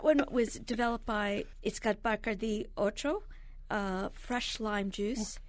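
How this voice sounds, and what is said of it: Spanish accent on a drink name. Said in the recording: “I'm partly Puerto Rican, so my Spanish accent came out.”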